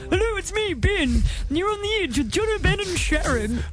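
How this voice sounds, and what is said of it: Good impression of host Ben. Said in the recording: “including this one of Ben ... That's my impersonation ... That was actually really good.”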